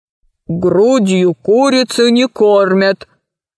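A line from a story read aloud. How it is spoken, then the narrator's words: Bar owner's booming voice. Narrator (Russian): прогудел владелец бара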